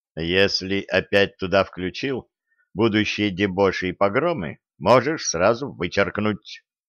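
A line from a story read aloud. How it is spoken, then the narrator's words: Stern. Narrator (Russian): строго сказал царский сплетник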